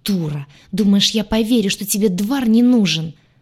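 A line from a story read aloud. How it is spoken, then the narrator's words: Snake-like hiss. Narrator (Russian): зашипела Айя похлеще любой змеюки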